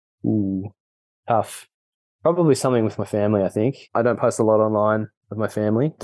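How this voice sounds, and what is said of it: Mild Australian accent. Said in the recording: “I've got a weird Australian accent. ... I've heard heavier accents than yours. So yours is pretty understandable.”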